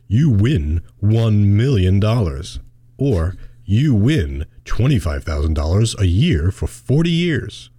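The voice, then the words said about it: Announcer-style radio voice. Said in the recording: “I'm gonna try doing my radio voice here.”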